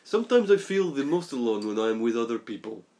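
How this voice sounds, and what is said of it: Attempted Russian accent, sounds French. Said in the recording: “did you do a Russian accent? In character. ... You're French too! ... You remind me of Boris from Golden Eye.”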